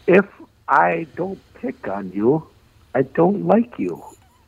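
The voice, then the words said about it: Imitates another person's voice. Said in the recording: “you said nobody could do an impersonation of you ... I can do it. ... You can do an impression of me.”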